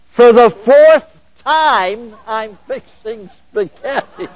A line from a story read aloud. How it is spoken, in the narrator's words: she screamed